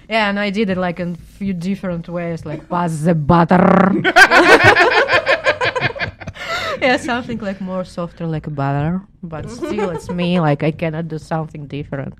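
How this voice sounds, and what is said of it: Russian accent. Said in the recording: “it's my fucking accent ... your Russian dialogue”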